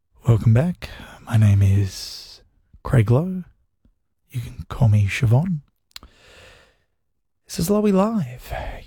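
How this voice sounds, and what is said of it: Classical music radio presenter voice. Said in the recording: “my impression of how they talk on, like, the classical music radio”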